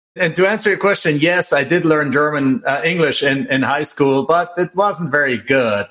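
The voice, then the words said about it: Austrian-German-sounding English accent. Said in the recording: “you can hear from my accent, I still sound like Arnold.”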